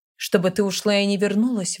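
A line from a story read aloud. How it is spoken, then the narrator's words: Sudden growl. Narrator (Russian): вдруг зарычал Гидеон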